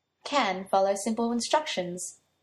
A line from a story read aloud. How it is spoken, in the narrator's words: Merlin said with a chuckle after a small pause